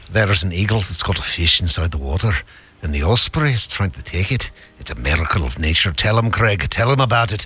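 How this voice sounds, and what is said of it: Put-on Scottish accent. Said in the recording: “the director's note is Scottish accent ... I love that we get to compare this to actual Scottish people here.”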